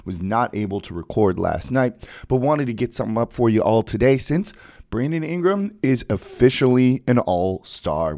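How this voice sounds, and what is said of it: Rough, sick-sounding voice. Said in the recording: “Forgive my voice, still kind of fighting off a cold”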